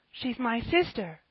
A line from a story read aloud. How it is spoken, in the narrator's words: cried Ben